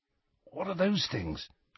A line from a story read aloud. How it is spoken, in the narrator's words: whispered Ron